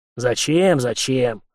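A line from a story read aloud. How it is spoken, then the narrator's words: Snapping retort. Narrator (Russian): огрызнулся старший унтер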